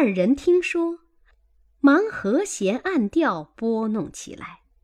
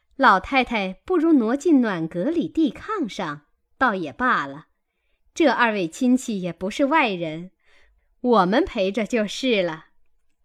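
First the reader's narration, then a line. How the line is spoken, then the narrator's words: Ingratiating smile. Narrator (Chinese): 王夫人陪笑说道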